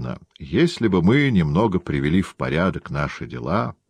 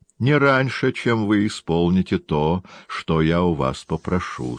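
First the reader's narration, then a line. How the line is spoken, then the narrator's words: Plain. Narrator (Russian): сказала она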